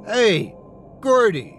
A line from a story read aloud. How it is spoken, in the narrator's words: Marcus yelled at the creature